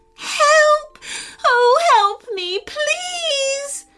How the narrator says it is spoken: feeling so afraid, she screamed out

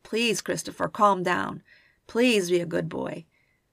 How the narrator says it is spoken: In desperation, Walt hoarsely implored

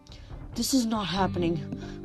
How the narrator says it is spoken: Grover mumbled

